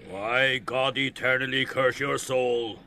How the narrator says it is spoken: Ben Dollard growled furiously

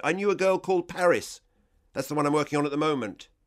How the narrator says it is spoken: I was on a roll now and shouted

